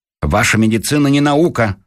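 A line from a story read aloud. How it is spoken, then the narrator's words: Snapped retort. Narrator (Russian): огрызнулся Дровосекин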